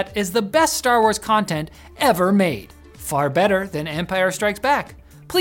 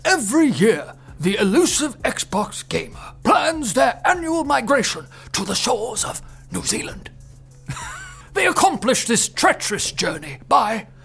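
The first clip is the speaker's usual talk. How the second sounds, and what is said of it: David Attenborough nature narrator impression. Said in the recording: “he wants me to do an Attenborough impression”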